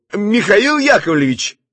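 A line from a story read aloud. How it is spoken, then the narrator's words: Resonant shout. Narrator (Russian): звучно крикнул он вслед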